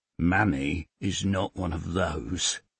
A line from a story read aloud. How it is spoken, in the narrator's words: he says quietly